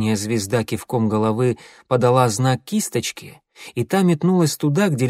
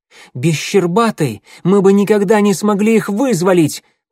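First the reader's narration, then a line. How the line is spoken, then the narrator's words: Shouted. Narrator (Russian): прокричал Огонек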